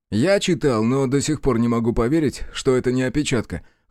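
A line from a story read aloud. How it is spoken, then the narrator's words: Skeptical snort. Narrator (Russian): хмыкнул Санек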